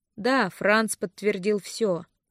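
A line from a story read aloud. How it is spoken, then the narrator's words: Gloomy. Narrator (Russian): мрачно кивнул Винс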